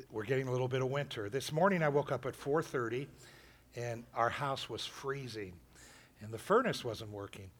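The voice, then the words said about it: Slightly rough hoarse voice. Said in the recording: “My voice is a little rough.”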